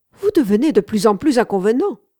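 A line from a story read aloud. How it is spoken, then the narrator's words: Exclaiming. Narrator (French): s'écrie-t-elle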